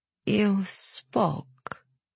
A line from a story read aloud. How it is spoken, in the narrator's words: she said slowly